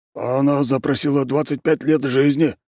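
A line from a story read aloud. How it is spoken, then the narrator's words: Frightened. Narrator (Russian): испуганно ответил Тимофей Робертович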